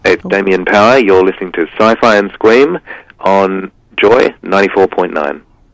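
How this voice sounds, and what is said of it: Community radio announcer voice. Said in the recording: “I used to do community radio ... so I put on my best community radio voice.”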